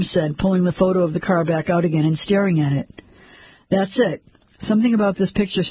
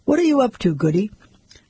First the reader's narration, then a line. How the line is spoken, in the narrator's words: Sanders sighed